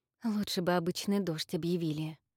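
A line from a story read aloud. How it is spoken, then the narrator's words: Muttered. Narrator (Russian): пробормотала Инна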